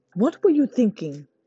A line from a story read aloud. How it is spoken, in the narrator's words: Sunny snapped